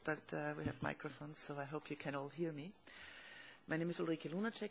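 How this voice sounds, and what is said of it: Hoarse voice. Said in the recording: “my voice is a bit hoarse”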